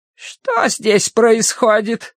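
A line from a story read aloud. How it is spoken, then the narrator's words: Creaky, grating voice. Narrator (Russian): проскрипела вошедшая в палату сестра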